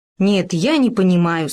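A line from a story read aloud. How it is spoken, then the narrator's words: Plain. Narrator (Russian): сказал Хома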